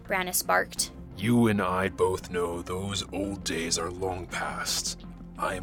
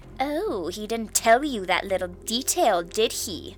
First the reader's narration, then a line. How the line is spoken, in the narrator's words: She sneered gleefully